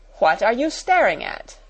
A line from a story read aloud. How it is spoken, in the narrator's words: demanded Miss Minchin sharply